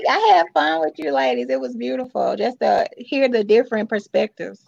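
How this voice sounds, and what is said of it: Heavy Southern US accent. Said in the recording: “my accent because I'm from the South. But it's just heavy.”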